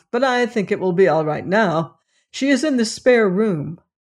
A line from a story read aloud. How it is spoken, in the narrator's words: he reported with a nervous laugh